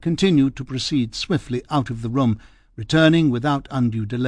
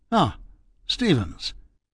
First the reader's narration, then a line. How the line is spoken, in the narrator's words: Faraday gave a small start, muttering